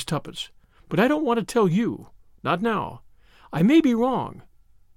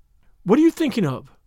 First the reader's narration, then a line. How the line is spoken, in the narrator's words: said Jane sharply